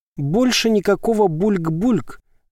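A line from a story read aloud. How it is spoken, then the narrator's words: Forced out, happily smiling. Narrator (Russian): выдавил Твитти со счастливой улыбкой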